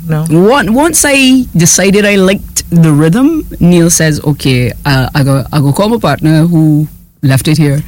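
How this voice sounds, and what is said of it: Trinidadian accent. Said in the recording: “Your Trini accent is cute.”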